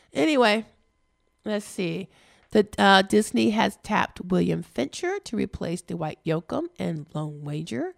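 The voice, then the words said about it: Strained, failing voice. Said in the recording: “my voice is going again”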